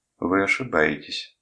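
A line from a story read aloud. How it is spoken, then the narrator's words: Cold objection. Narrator (Russian): холодно возразила Йо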